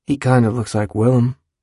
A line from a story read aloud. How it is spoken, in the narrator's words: he says